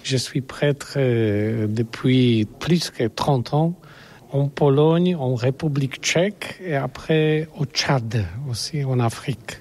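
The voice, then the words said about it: Non-native French, good accent. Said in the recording (French): “Vous parlez très bien, vous avez un très bon accent.”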